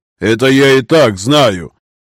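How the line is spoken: Angry growl. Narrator (Russian): зло рыкнул Герин

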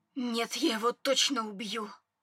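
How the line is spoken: Hiss. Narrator (Russian): Адриан прошипев

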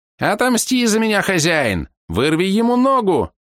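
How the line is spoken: Frantic squeak, little spider. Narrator (Russian): Неистово запищал паучок

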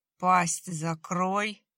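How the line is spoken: Spoken through teeth. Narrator (Russian): процедил прапор

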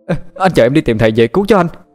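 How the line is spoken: Joyful loud shout. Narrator (Vietnamese): Huyền Y mừng lắm, hét lớn lên

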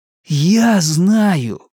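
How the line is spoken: Excited revelation. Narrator (Russian): воскликнул, словно ему открылась великая истина

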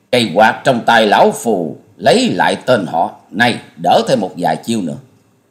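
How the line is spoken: Bursting laughter. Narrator (Vietnamese): Gã áo vàng bịt mặt cười phá lên

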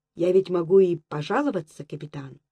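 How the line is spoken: Firm, slightly haughty officer. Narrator (Russian): Чтобы как-то не остаться оскорбленным, твердым голосом и с некоторой заносчивостью ответил комбат

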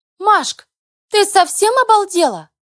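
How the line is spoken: Shrieking over the phone. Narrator (Russian): Сразу завизжали на том конце провода

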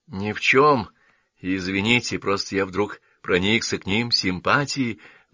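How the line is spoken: Forced, wry smile. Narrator (Russian): выдавил Дайкон, криво улыбаясь

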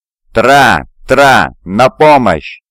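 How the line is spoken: Yelling for help. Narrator (Russian): заорал я

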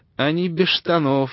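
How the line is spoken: Laughing. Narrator (Russian): засмеялся Ноу при виде удиравшего во все лопатки Адама

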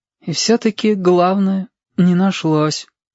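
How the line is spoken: Sad and stubborn. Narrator (Russian): печально и упрямо произнес Сашка

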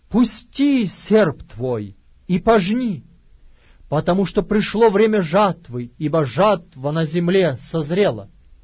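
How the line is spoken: Loud exclamation. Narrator (Russian): другой ангел воскликнул громким голосом

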